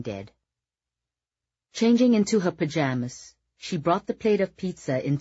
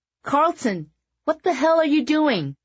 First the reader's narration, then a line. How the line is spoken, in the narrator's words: Scheherazade shouted down at him, absolutely mortified